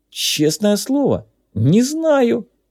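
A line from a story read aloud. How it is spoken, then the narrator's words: Timid babbling. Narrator (Russian): пролепетал Джипс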